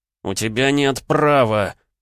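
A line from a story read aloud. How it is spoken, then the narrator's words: Growling. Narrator (Russian): прорычал Леонид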